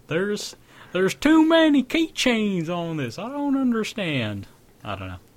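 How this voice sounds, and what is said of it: Put-on southern drawl. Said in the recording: “southern drawl”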